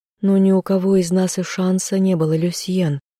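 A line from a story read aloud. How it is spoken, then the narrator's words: Sad sighing. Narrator (Russian): отвечала вторая, грустно вздыхая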